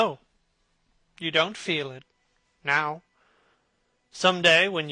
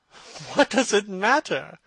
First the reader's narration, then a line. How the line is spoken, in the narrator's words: cried Dorian, laughing